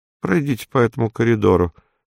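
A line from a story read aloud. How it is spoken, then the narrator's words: Flat colorless voice. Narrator (Russian): сказал чиновник бесцветным голосом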